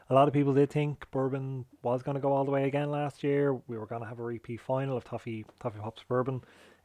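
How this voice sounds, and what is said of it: Tired, low-energy voice. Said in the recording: “I'm very tired, as you can probably hear in my voice as well... the lack of maybe energy”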